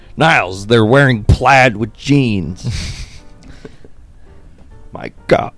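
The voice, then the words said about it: Imitates a sitcom character's voice. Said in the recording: “our only Frasier impersonation.”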